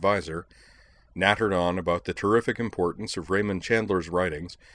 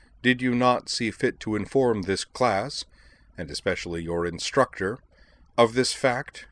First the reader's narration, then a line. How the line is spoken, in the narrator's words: said the professor, more coldly still